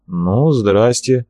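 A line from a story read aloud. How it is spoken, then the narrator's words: Sighed. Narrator (Russian): вздохнул Степа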